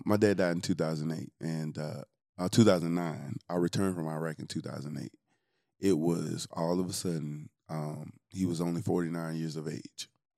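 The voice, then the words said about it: Teary, emotional voice. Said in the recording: “I'm getting teary-eyed.”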